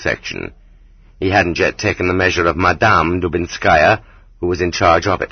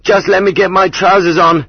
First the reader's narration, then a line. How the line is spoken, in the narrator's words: he yelled